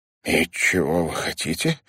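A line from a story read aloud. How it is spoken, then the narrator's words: Suddenly hoarse question. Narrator (Russian): спросил Ларри внезапно охрипшим голосом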